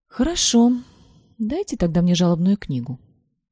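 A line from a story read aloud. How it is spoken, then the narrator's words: Calm, suppressed indignation. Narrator (Russian): спокойно произнесла поэтесса, стараясь не показывать вида возмущения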